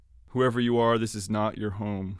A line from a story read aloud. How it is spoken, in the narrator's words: she said, timid at first, then raising her voice